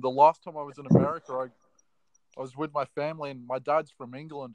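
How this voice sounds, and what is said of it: Australian accent. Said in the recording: “I love your accent. ... Does that actually sound Australian? ... Yeah, pretty much. ... I dig the Australian accents.”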